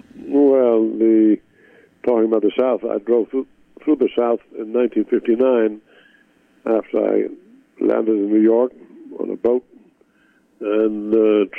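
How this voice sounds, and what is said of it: Foreign accent, non-native English speaker. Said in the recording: “you're not born in America ... especially when you got an accent”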